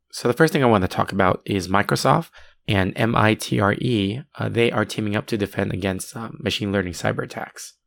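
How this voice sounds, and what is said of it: Sick, under-the-weather voice. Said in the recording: “You can probably tell from my voice, I am feeling a little bit under the weather”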